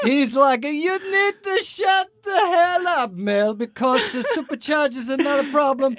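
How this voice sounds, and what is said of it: Put-on Italian accent. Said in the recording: “Cannot do the Portuguese accent, but I can try and do the Italian accent. ... then it starts to turn into Scarface”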